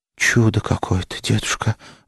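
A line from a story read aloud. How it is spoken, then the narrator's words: Delighted whisper. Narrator (Russian): восторженно прошептала Маша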